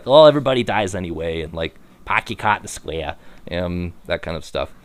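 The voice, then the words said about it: Bad put-on Boston accent. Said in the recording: “Except it's in Boston. So they probably say, like ... I apologize for my terrible accent ... most people in New England don't even have that accent anymore”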